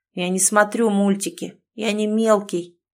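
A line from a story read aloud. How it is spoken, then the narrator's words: Grumbling reply. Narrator (Russian): пробурчал в ответ Никита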